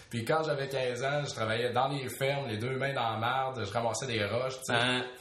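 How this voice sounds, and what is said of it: Beauce Quebec French accent. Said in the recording (French): “Je viens de la Beauce... Vous reconnaissez peut-être un certain accent dans mon parler.”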